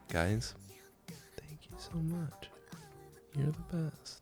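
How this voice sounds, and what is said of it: Gentle whisper. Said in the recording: “I'm whispering gently to you”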